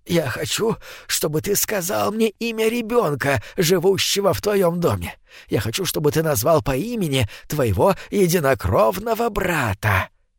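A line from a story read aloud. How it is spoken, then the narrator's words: Whisper. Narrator (Russian): Скрюченный человек склонился к нему и зашептал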